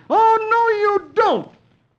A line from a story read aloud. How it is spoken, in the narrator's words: Dagwood ... yelling